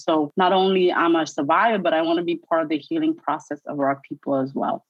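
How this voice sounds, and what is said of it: New York accent. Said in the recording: “I love your New York accent.”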